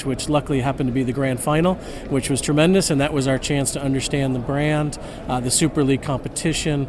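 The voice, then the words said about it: American accent. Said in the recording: “as you can tell from my accent, I'm American”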